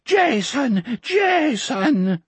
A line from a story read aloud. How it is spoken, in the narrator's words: the old man sobbed